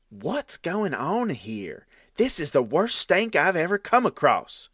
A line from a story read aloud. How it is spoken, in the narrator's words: one of them exclaimed